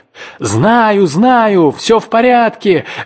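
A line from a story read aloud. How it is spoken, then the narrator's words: Carefree shout. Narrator (Russian): беззаботно заорал в ответ человек с берега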